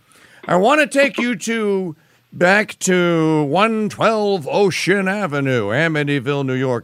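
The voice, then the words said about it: Radio announcer voice. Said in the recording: “as I say in my real radio announcer voice”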